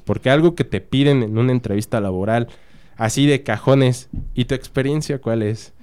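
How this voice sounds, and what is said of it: Radio announcer-like voice, slightly congested. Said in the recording (Spanish): “tiene voz de locutor ... y eso que estoy agripado”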